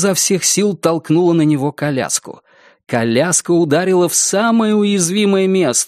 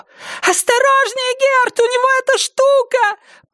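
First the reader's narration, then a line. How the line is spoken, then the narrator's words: Piercing scream. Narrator (Russian): Пронзительно завопила Синтия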